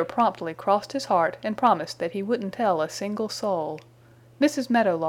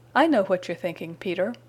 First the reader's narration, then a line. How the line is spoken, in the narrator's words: he chuckled